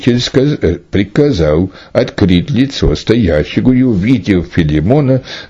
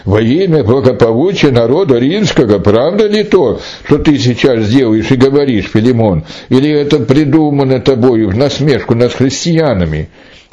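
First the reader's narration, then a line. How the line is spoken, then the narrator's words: Astonished exclamation. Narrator (Russian): Судья был чрезвычайно удивлен этим и воскликнул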